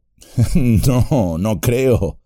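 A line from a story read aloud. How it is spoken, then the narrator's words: Laughing. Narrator (Spanish): dijo Merry riendo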